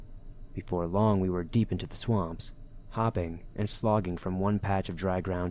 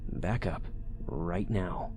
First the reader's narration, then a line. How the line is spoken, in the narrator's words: Heather said quietly